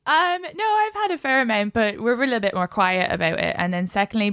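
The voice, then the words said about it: Irish accent. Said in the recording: “when ... says come in the Irish accent”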